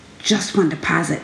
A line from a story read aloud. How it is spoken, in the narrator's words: said under her breath